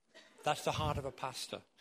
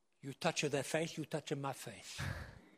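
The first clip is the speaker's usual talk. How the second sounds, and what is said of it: Put-on Italian accent. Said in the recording (French): “In an Italian accent.”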